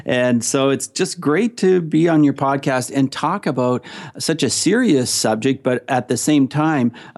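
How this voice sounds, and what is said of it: Canadian accent. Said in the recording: “your accent, because it's the second you say hello, people should identify with it ... I am from Canada. I'm from Ontario, Canada.”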